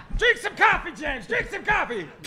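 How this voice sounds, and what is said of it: Yelling loudly. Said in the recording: “Stop yelling at me!”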